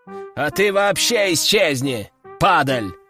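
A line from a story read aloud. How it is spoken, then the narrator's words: Aristocrat's growl. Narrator (Russian): прорычал аристократ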